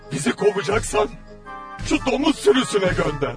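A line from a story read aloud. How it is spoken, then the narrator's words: Pleading group. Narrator (Turkish): diye yalvardılar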